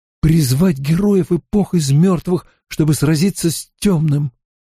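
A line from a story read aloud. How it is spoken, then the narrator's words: Trembling voice. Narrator (Russian): Найнев произнесла дрожащим голосом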